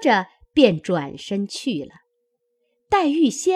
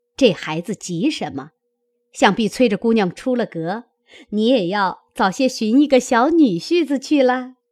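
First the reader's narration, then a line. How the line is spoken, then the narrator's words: Laughing. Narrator (Chinese): 薛姨妈笑道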